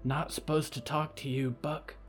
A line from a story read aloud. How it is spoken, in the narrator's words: Jedediah whispered